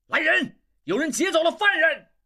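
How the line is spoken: Loud shout. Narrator (Chinese): 大喊

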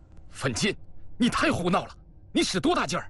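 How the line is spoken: Angry shout. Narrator (Chinese): 黄一秋满脸怒气，喝道

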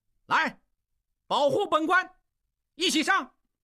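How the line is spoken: Shouting. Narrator (Chinese): 金勇……大喊道

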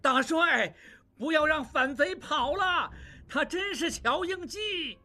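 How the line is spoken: Shouting. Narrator (Chinese): 望柏还在叫着

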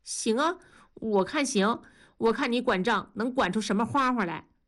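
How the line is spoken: Chuckling. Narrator (Chinese): 文丽突然嘿嘿地笑了，说

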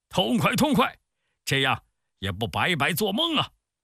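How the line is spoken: Crowd shouting in unison. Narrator (Chinese): 众人都拍着手齐声大叫

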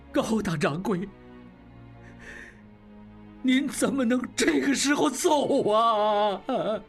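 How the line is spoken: Crowd weeping. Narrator (Chinese): 众人哭成一片

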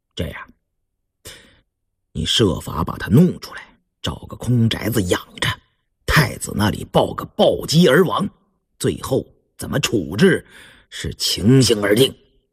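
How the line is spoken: Cold. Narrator (Chinese): 胤禛冷冷地说

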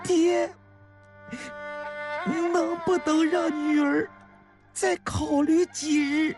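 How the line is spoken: Choked sobbing. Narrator (Chinese): 湘玉不由得哽咽了起来

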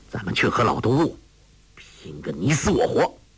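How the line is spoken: Angry. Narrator (Chinese): 郭靖怒道

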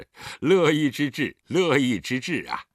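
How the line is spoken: Chuckling. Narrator (Chinese): 狄仁杰呵呵一笑

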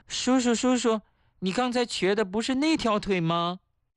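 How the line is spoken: Shouting. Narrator (Chinese): 后面有人喊

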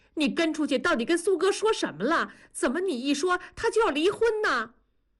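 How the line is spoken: Shouted. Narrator (Chinese): 文丽转身就冲着同志喊

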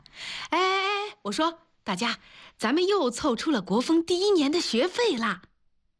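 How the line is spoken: Shouting. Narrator (Chinese): 他拿起麦克风大声地喊

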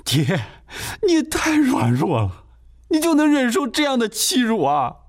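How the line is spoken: Anxious crying. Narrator (Chinese): 罗甲成都被急哭了

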